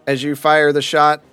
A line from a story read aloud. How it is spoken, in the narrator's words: Deacon yells out